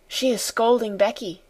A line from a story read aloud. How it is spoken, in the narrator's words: she whispered